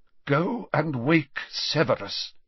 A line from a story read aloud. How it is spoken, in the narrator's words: said Dumbledore faintly but clearly